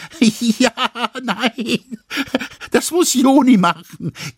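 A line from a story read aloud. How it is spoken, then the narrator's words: Giggling. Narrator (German): kicherte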